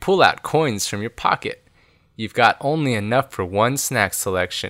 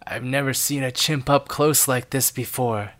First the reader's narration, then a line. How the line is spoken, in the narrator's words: Sam whispers